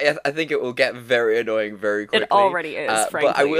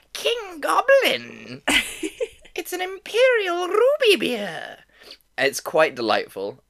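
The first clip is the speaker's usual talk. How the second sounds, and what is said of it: Goblin character voice. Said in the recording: “I have to say it in the way that I read it ... I love my goblin voice. The Riddle Goblin.”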